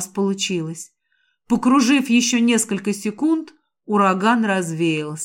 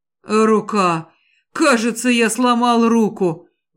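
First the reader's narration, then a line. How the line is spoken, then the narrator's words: Groan of pain. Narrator (Russian): Гаэлан застонал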